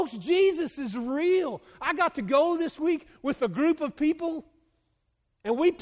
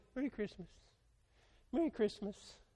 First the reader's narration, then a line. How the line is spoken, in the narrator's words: we'll shake your hand quietly and say